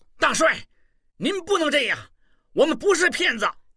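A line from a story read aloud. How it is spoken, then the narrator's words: Angry. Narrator (Chinese): 望柏神情一变，怒道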